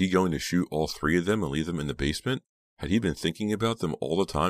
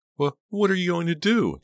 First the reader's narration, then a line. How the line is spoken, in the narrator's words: Dina choked out